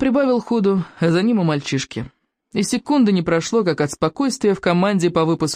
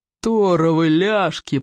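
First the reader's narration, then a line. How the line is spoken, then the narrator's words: Growled. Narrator (Russian): прорычал Плевака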